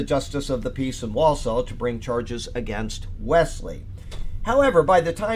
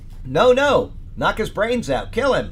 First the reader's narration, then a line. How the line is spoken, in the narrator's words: the angry crowd shouted